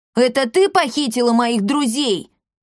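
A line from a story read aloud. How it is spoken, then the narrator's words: Yelling. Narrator (Russian): завопил Пима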